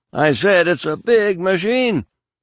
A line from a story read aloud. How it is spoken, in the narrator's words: Faith shouted